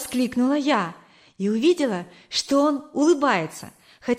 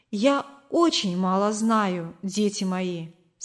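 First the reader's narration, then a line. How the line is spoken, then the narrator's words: Plain. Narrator (Russian): сказала она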